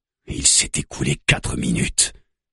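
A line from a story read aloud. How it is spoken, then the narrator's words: Murmured. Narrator (French): murmure Juna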